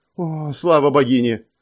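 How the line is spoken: Relieved exhale. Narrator (Russian): облегченно выдохнул Ву Жоу, явно расслабившись

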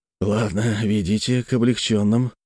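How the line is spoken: Dejected voice. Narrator (Russian): упавшим голосом сказал я

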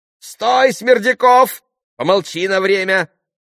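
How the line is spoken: Shouting again. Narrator (Russian): крикнул опять Федор Павлович

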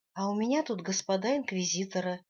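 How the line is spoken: Joyful rapid chatter. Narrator (Russian): радостно затараторила я

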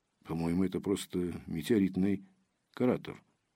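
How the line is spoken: Low remark. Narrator (Russian): вполголоса заметил Ромашин

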